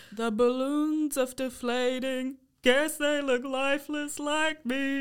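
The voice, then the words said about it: Imitates singer's throaty voice. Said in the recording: “that was a really good impression ... it just sounds like he's got balls in his throat ... He got like something stuck in his throat”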